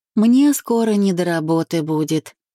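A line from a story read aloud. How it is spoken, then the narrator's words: Sigh. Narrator (Russian): вздохнула она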